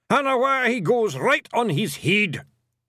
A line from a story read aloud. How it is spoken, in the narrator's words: he yelled